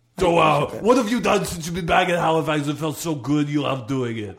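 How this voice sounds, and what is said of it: Put-on Austrian-sounding accent. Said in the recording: “you sounded a little bit like almost sort of Austrian ... you sort of sound a little bit like Arnold Schwarzenegger”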